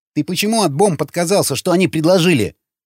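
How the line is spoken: Sharp question. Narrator (Russian): резко спросил Вячеслав

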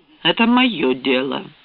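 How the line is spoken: Cold curt retort. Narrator (Russian): отрезал он холодно

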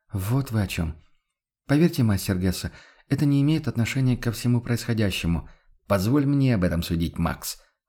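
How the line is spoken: Objecting. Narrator (Russian): возразил он

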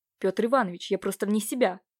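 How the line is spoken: Exclamation. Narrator (Russian): воскликнул Левашов

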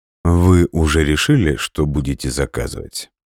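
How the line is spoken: Unruffled calm question. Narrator (Russian): Невозмутимым тоном спросил он

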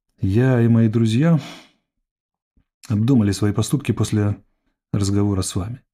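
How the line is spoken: Quiet. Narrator (Russian): негромко начала Родис

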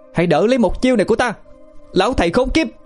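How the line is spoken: Shouting. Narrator (Vietnamese): Linh hét lớn

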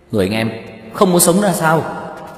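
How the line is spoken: Shocked yell. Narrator (Vietnamese): Tiêu Dật Vân trợn mắt há mồm hét lên

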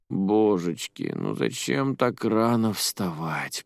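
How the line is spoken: Mumbling. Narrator (Russian): промямлила она

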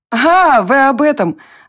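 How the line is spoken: Laughing. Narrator (Russian): Варя тоже расхохоталась

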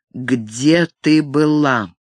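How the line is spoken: Cold, slow, deliberate question. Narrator (Russian): Холодно, медленно цедя слова, чтобы придать им больше вес, спросил он

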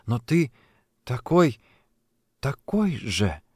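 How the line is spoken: Halting mumble. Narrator (Russian): пробормотала она, пытаясь подобрать слова

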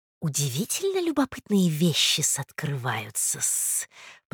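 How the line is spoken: Hissed into someone's ear. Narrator (Russian): прошипела Наталья Дмитриевна на ухо Анне Николаевне

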